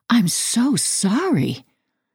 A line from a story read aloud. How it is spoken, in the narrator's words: I stammered, sucking in a shocked breath